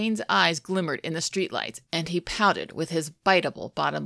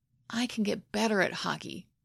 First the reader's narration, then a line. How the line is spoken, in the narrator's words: Hayden murmured